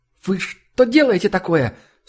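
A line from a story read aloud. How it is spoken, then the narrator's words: Sharp cry. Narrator (Russian): вскрикнула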